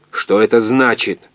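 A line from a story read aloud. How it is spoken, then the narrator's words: Angry raised voice. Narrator (Russian): он сердито повысил голос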